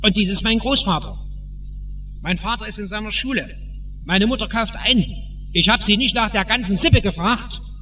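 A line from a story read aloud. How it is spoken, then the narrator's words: Man bellowing, German then Dutch. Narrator (German): brüllte der Mann auf Deutsch und dann auf Holländisch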